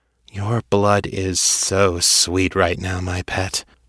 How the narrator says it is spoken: Allura purred

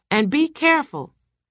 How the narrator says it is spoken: Undine shouted after him

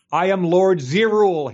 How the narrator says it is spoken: he shouted

